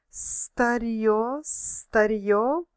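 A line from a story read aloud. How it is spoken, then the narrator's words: Hissed. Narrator (Russian): прошипел он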